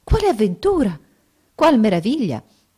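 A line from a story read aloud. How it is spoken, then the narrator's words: Amazed exclamation. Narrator (Italian): assai meravigliata, sicché esclamò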